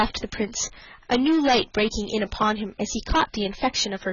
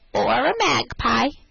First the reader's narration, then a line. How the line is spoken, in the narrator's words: answered she, with a capital imitation of Mistress Mag's croaky voice